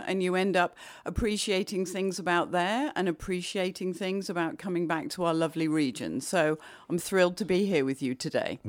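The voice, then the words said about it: English accent. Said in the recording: “what's with this accent? ... becoming very, very English once more ... You lose the New York?”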